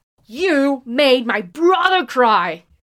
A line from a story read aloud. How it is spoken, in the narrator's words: over it all, Jiang Wenyin is shouting